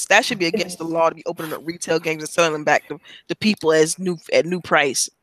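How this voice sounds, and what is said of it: Audibly angry, upset voice. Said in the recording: “I'm still pissed off about it. You can hear it in my voice.”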